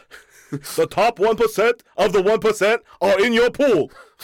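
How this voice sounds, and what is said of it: Imitates another person's voice. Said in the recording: “a really great Bernie Sanders impression,... it's very close to Snagglepuss”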